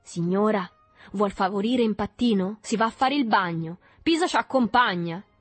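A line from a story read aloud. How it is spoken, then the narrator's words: Blind rage shouting. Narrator (Italian): un'ira improvvisa l'accecò e si lanciò su Berto gridando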